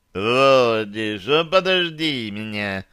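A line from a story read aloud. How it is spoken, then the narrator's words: Drunken call. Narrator (Russian): пьяным голосом окликнул меня Дирон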